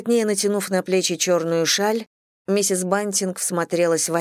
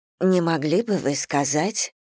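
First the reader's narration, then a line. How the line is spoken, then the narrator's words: Quiet. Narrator (Russian): проговорила она тихо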